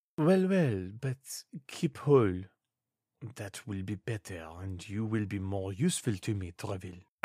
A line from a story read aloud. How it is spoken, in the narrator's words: added the king in a low voice